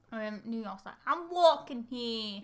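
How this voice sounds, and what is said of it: Put-on New York accent. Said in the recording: “Is this a New York City accent?”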